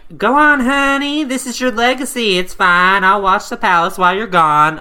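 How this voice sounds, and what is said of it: Put-on country accent, old woman. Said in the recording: “Country accent. She's a country granny.”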